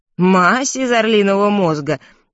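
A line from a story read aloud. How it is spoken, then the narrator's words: Laughing. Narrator (Russian): повторил, смеясь, аптекарь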